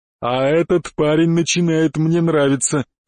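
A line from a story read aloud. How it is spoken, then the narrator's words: Chuckle. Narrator (Russian): хохотнул Черный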